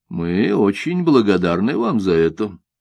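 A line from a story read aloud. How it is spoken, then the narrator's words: Calm elderly reply. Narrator (Russian): спокойно отвечал старый чиновник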